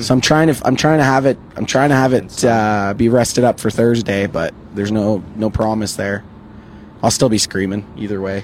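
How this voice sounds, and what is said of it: Hoarse, shredded, nearly lost voice. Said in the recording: “have you been eating gravel? ... My throat feels like I've been eating gravel. ... my voice is completely fucking gone. ... Shredded.”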